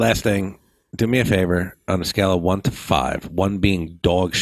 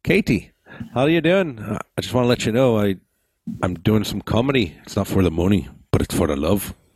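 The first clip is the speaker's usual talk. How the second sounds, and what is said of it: Attempted Irish accent, sounds Scottish. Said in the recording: “How's my Irish accent? ... It sounds more mm. Scottish, ... than Irish.”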